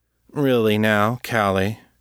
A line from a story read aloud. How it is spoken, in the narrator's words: said, his voice smooth and casual